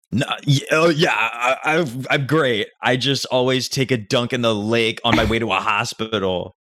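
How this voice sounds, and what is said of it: Sarcastic tone. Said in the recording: “did you feel like being sarcastic with me was appropriate?”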